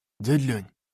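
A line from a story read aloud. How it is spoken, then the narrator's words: Whisper. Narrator (Russian): шепнул я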